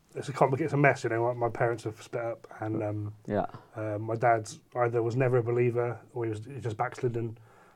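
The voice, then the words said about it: Welsh-sounding British accent. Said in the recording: “you sound Welsh.”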